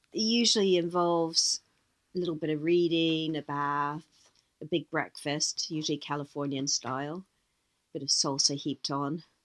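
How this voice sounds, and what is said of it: Noticeable accent. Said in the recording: “I'm picking up an accent there”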